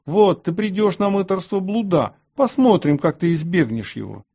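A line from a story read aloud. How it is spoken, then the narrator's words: Furious shouting. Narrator (Russian): В ярости они кричали на меня и говорили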